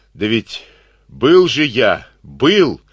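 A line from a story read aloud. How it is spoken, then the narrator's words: Sudden hoarse wheeze. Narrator (Russian): вдруг выхрипел полковник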